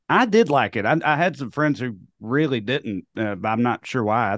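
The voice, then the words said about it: Speaks with a noticeable accent. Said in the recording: “Sorry, the accent. I know. Trips people up. ... My accent, right?”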